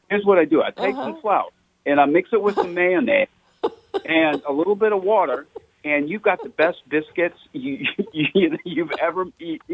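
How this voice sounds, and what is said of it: Imitates another person's voice. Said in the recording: “That's a pretty good imitation, actually”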